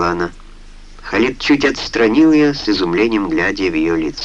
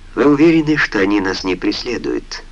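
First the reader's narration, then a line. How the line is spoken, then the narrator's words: Sleepy question. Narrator (Russian): сонно спросила она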